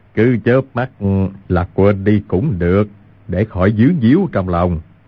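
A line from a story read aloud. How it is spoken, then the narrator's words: Smiling. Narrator (Vietnamese): Nhất Đăng mỉm cười nói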